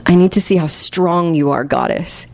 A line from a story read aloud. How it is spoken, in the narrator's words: he added with a sob of desperation as his voice trailed off